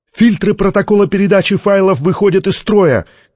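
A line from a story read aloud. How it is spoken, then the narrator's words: Shouted. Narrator (Russian): крикнул кто-то из технического персонала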